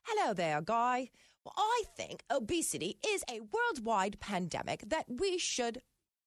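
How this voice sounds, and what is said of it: English-accented impression of Susan Jebb. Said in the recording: “am I talking to Professor Susan Jebb? ... I don't have a London, an English accent.”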